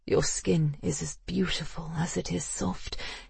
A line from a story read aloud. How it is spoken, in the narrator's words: he murmured